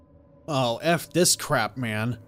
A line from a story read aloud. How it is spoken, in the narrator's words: growled